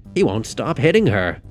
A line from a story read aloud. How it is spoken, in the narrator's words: Keegan exclaimed